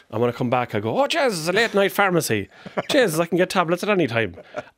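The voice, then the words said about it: Rural Irish Culchie accent. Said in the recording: “You still sound like a Culchi. I'll give you that. You didn't lose the accent.”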